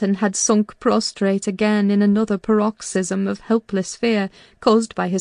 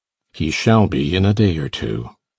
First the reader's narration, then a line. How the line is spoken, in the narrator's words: muttered Heathcliff